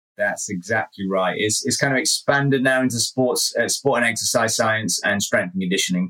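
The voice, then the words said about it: British accent. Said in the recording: “as you guys can hear from the accent ... is calling from the UK”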